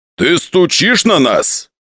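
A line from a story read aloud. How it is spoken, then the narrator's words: Rude tone. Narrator (Russian): грубо сказал Буянов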